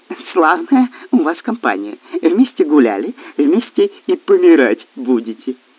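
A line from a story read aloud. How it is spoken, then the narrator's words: Giggling. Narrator (Russian): Каин хихикнул и сказал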